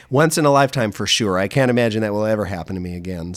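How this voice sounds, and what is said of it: Strained, worn-out hoarse voice. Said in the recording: “my voice is shot today.”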